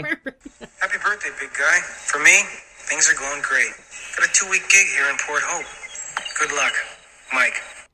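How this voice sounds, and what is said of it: Strong Canadian accent. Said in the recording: “His accent is so Canadian.”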